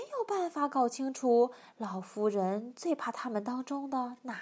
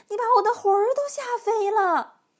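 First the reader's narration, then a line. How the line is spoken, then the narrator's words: Old woman shouting. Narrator (Chinese): 瘦小的老妇人喊起来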